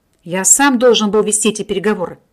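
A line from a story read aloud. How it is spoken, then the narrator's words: Displeased grumbling. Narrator (Russian): пробурчал недовольный доктор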